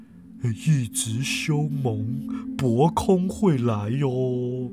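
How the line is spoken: Muttering to himself. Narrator (Chinese): 布朗博士就喃喃自语啊

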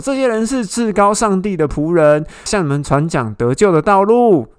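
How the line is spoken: Shouting possessed servant girl. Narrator (Chinese): 被巫鬼附的婢女…大叫说

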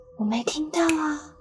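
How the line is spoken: Quiet voice. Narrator (Chinese): 我小声地说

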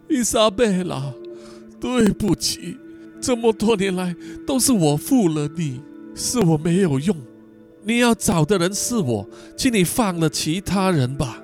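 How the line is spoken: Crying, pleading. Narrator (Chinese): 哭着哀求道

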